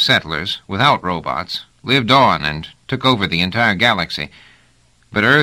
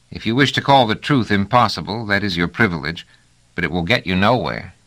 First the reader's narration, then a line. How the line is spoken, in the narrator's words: said Deniador with a soft sigh